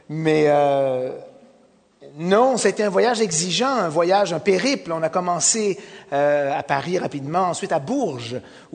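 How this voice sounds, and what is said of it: Noticeable regional French accent. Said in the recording (French): “vous reconnaissez mon accent, et je ne le supprimerai pas, puisque ça fait partie de la couleur et le son”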